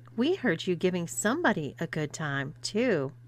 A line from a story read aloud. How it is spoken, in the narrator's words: Paula laughed before saying